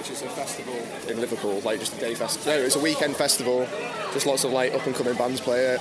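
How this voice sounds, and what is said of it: British accent. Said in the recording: “You guys obviously are not based here in South Korea. I mean, just listen to your accents. ... this is British Night, so it's like the British showcase”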